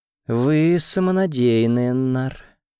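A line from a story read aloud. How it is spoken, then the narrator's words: Languid female voice. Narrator (Russian): томным голосом произнесла она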